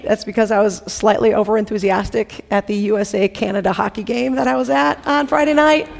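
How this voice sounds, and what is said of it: Hoarse voice. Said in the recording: “my voice is hoarse.”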